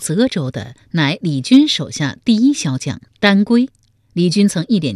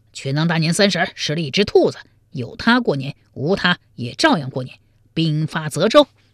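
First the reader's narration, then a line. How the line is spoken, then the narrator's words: Angry. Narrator (Chinese): 李军怒之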